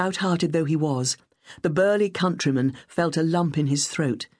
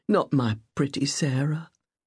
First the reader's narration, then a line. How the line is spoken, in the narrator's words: Joseph Miller whispered in anguish